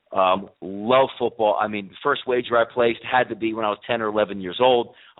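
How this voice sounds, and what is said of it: East Coast American accent. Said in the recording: “Based out of the East Coast, as you could probably tell by my voice and my accent”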